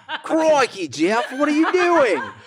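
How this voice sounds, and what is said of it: Put-on Australian accent. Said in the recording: “I love Australian accents.”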